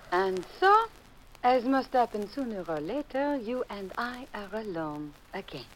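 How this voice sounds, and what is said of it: Phony French accent. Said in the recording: “you can drop that phony French accent”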